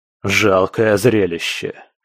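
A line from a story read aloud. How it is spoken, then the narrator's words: Scornful snort. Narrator (Russian): фыркнул куратор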